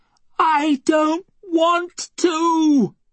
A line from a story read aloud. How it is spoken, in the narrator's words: Elay screams up at the ceiling